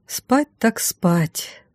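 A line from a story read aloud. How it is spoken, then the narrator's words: Sigh. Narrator (Russian): вздохнула я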